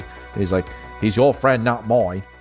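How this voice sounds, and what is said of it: Poor put-on British accent. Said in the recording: “That was a terrible British accent.”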